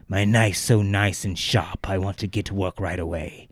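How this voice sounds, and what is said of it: Strained throaty impression voice. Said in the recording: “It's pretty good. Pretty good impression. ... Hurt my fucking throat”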